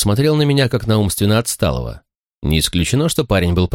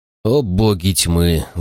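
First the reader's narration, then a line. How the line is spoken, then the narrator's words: Sighed. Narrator (Russian): вздохнул я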